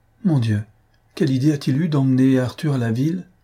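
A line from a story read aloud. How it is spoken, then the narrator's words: Pained exclamation. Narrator (French): s'écria-t-elle d'une voix douloureuse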